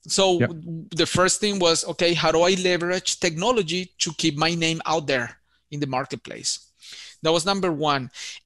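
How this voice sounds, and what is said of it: Strong Colombian accent. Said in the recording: “he had a very strong accent from Colombia. He's mispronouncing words.”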